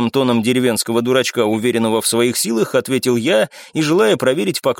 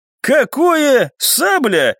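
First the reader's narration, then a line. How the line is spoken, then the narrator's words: Indignant question. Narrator (Russian): возмущенно спросил спутник маркиза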